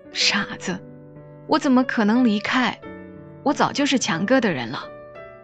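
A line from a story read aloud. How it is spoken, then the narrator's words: Sighing. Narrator (Chinese): 许良叹气说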